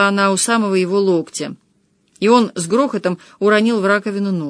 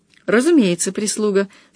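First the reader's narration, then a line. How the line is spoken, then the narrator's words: Calm. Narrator (Russian): сказала спокойно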